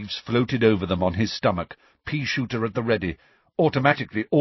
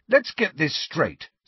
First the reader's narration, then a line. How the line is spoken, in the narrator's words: said Harry angrily